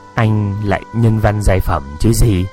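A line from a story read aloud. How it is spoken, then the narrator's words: Knowing tone. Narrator (Vietnamese): với giọng hiểu biết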